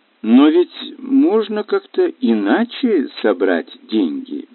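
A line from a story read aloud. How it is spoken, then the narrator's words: Hesitant. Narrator (Russian): неуверенно сказала Сильвия Бэбкок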